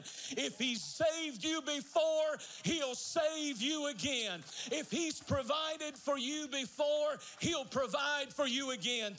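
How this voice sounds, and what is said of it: Screaming, very loud preaching voice. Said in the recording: “I'm sorry if I'm screaming”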